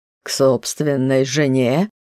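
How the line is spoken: Mocking question, man. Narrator (Russian): насмешливо уточнил мужчина

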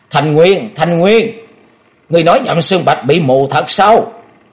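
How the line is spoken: Shrill, high-pitched shout. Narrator (Vietnamese): cao giọng hét lên thè thé nói

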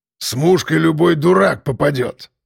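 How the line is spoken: Grumbling. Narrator (Russian): ворчал шеф

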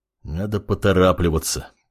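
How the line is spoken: Mutter. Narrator (Russian): пробормотал

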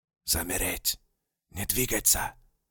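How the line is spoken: Crisp whisper. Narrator (Russian): Отчетливым шепотом продолжал голос немца

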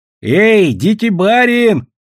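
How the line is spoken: Child shouting. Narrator (Russian): крикнул маленький Вятич Ломов

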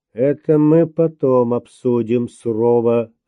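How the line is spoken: Plain. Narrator (Russian): ответил Обнорский

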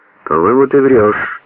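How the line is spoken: Calm objection. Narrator (Russian): спокойно возразил Смирнов

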